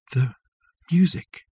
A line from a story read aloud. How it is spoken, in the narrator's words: whispered Richard